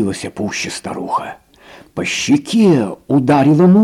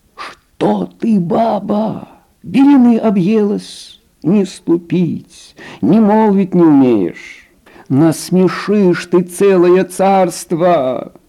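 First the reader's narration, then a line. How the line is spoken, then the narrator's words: Frightened old man pleading. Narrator (Russian): Испугался старик, взмолился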